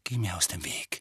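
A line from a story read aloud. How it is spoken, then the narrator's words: Quiet. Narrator (German): sagte Harry leise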